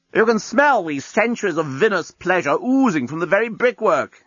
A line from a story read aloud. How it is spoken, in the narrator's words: he shouted up